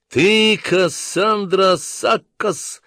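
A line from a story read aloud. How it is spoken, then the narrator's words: Loud and solemn. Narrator (Russian): громко и торжественно произнес Ланселот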